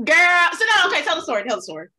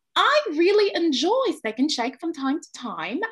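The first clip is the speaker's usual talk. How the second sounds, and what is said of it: Put-on British accent. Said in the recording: “let me try to do my British accent ... I actually really think I have a nice British accent”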